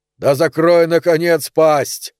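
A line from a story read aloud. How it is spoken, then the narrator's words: Barked. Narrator (Russian): рявкнул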